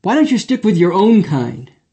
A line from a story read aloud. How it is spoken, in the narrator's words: he blurted out